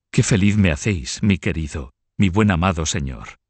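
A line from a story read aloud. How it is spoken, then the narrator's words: Exclaiming. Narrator (Spanish): exclamaba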